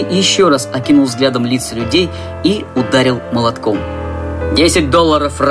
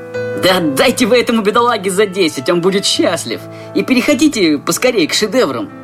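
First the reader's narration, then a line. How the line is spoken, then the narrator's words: Sarcastic snort. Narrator (Russian): кто-то язвительно фыркнул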